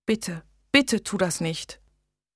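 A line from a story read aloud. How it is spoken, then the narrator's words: Girl's soft pleading. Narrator (German): flehte das Mädchen leise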